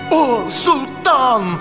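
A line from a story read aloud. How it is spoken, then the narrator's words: Exclaiming. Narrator (Russian): воскликнул Аладдин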